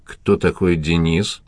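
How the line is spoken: Plain. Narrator (Russian): спросил следователь

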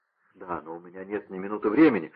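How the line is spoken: Pleading. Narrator (Russian): взмолился Вольфганг

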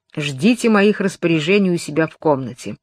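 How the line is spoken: Growl. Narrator (Russian): прорычав

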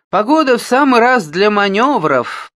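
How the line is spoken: Roaring. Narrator (Russian): проревел полковник

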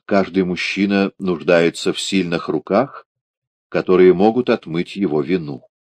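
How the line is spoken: Calm reply. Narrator (Russian): спокойно так отвечает

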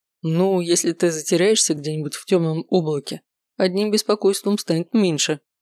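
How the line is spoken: Laughing. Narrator (Russian): хохотнул Макс

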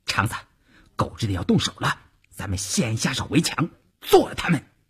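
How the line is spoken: Low voice. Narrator (Chinese): 邵月低声对前面的晋中人说

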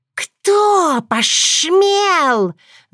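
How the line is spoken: Hissing angrily. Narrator (Russian): зашипела она

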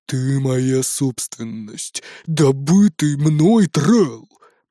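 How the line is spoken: Grumbling. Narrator (Russian): проворчал Бродди

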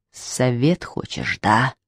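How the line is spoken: Menacing question. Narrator (Russian): спросил грозно

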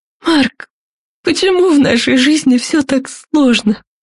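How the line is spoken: Tearful sob. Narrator (Russian): Яна всхлипнула

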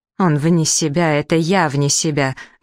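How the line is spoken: Rude furious interruption. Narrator (Russian): грубо перебила ее госпожа Джашер, которая, судя по всему, рассердилась не на шутку

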